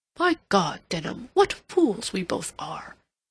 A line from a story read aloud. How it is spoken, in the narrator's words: Rodney exclaimed